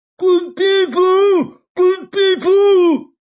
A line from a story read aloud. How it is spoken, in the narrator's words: Faith whooping and shouting